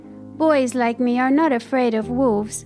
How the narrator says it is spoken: replied Peter

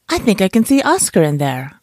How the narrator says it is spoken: I cried

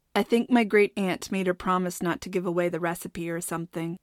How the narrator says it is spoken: Ira said

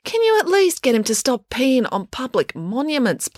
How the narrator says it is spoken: pleaded Finn

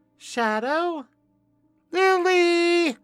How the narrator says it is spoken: Renee called out

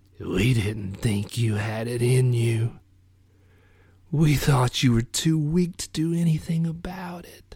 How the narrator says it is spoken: In a wet rasp, he said

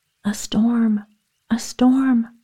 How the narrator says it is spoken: cried the peasant

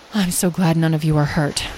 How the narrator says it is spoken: Beatrice said softly

